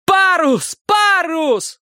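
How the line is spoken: Furious yelling. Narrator (Russian): третий яростно орал

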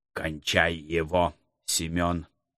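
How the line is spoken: Order through gritted teeth. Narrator (Russian): Сквозь зубы приказал Птицерухов

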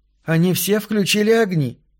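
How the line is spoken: Exclaimed. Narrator (Russian): воскликнула Линда

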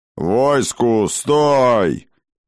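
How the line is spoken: Booming old man. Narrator (Russian): прогремел старый Хрофт

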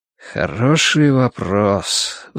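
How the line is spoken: Sigh. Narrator (Russian): вздохнул Гурни

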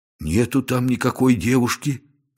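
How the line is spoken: Bewildered report. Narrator (Russian): растерянно доложил он

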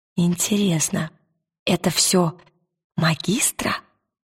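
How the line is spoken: Whisper. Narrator (Russian): прошептала она

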